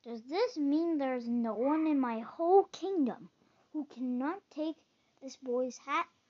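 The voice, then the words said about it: Bellowing, terrifying king's voice. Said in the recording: “bellowed the king in a terrifying voice.”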